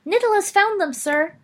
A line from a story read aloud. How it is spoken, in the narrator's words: cried a muffled voice